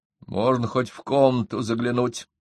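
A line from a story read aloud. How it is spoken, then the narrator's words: Dejected voice. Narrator (Russian): упавшим голосом произнес Минц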